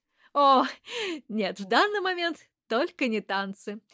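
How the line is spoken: Laughing. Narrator (Russian): засмеялась

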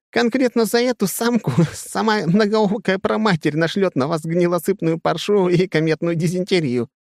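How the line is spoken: Strained words into loud laughter. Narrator (Russian): с усилием выговаривает, наконец, ярко и заливается уже в голос, чуть не сгибаясь пополам от хохота

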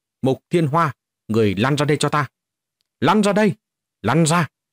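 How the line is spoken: Loud shout. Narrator (Vietnamese): Diệp Trần ... quát lớn

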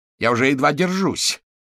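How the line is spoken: Frightened and angry. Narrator (Russian): Его голос звучал испуганно и сердито

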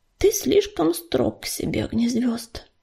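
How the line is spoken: Uncertain babbling. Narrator (Russian): неуверенно пролепетал Ежевика

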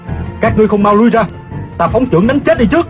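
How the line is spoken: Loud shout. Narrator (Vietnamese): Tiêu Phong quát lớn

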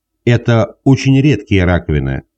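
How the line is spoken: Plain. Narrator (Russian): сказал Бамгран

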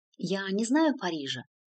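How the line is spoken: Quiet nun's reply. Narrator (Russian): тихо ответила монахиня

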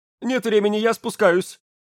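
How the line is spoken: Choked sob. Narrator (Russian): сдавленно всхлипнул

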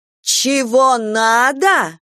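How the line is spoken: Woman yelling louder. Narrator (Russian): Еще громче заорала женщина

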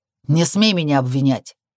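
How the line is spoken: Snapping retort. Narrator (Russian): огрызнулся

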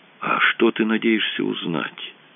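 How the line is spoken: Whisper. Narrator (Russian): прошептал Рэндалл Синти

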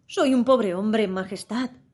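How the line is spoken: Trembling voice. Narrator (Spanish): empezó a decir el sombrerero en voz temblorosa

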